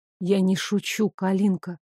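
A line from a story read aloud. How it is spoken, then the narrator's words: Whispered. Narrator (Russian): шепнул он в мои губы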